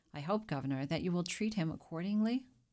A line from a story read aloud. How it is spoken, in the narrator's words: added with a laugh